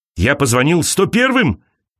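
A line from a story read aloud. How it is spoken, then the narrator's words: Shouting. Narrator (Russian): кричал он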